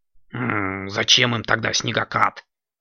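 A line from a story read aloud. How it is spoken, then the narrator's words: Grumbling. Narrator (Russian): проворчал Кракс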